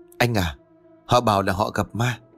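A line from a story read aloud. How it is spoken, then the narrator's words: Whisper. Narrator (Vietnamese): Huệ thì thầm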